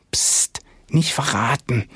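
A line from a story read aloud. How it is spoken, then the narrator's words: Whispered. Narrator (German): flüsterte Felix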